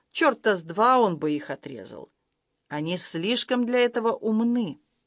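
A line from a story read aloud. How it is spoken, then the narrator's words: Grumble. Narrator (Russian): Харли проворчал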